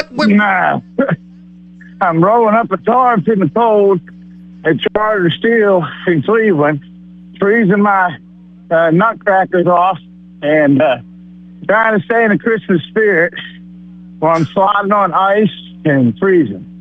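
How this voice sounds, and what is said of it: Out of breath, strained voice. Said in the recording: “Your voice sounds very different today. It sounds very weird. ... cold, fat, out of breath.”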